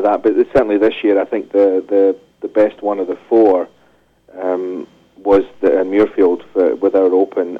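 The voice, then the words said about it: Speaks with a noticeable accent. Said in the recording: “as you could probably tell from my accent”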